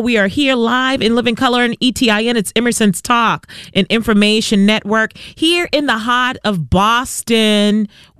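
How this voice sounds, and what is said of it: Strong Boston accent. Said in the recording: “Sometimes it comes out very strong. ... that is a true Bostonian accent for you right there. ... Only Bostonians talk like that.”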